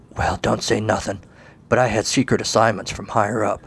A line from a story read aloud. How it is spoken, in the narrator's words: Colin would whisper to the others